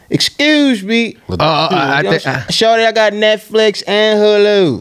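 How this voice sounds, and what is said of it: Put-on Baltimore accent. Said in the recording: “those funny Baltimore accent videos”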